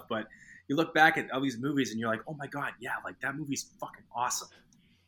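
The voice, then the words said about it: Boston accent. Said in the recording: “Do you hear the Boston accent right there? Do you hear the Boston accent?”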